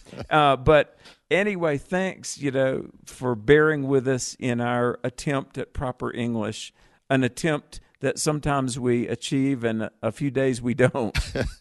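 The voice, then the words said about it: Southern American accent. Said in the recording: “he has such a Southern accent ... do you know you have a Southern accent? ... I'm from the South”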